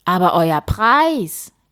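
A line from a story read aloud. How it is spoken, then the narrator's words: King calling out. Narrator (German): rief der König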